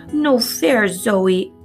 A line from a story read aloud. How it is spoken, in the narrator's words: Aurora wails